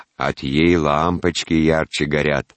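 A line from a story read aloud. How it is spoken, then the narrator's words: Deep bass voice. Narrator (Russian): басом вставляла прачка Мария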